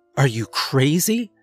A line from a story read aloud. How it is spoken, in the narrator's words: she exclaimed